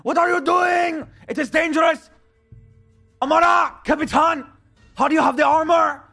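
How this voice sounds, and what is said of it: Yelling. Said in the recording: “I'm yelling”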